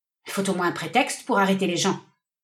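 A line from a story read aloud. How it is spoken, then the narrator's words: Grumbling, less arrogant. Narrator (French): grommela-t-elle avec un peu moins d'arrogance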